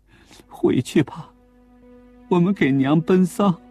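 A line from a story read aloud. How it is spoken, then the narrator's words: Bursting into tears. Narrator (Chinese): 孙玉兰一下子哭了起来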